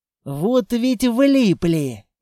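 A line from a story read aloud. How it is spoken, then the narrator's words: Angry hiss. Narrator (Russian): зло прошипел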